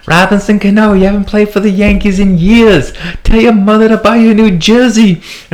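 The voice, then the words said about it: Exaggerated bad New York accent. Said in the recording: “in his worst New York accent”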